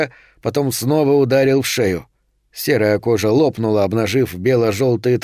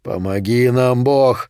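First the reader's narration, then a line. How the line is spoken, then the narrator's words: Breathed out. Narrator (Russian): выдохнул Сильвера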